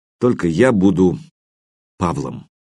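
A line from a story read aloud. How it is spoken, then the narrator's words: Quiet young man, odd undertone. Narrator (Russian): Юноша произнес это тихо, но в голосе его послышалось что-то такое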